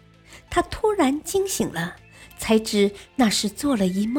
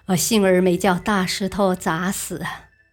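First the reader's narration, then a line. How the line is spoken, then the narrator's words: Smiling, scholar. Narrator (Chinese): 读书人笑笑说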